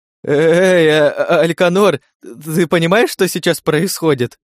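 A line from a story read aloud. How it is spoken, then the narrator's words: Trembling voice. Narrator (Russian): обратился Энталиор ко мне дрожащим голосом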